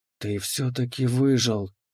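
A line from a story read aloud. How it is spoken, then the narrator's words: Trembling whisper. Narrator (Russian): прошептала она, и ее голос дрогнул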